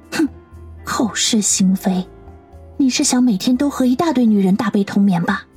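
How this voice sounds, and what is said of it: Soft, quiet whispered voice. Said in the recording (Chinese): “把脸贴在了他的胸口， 小声的说道”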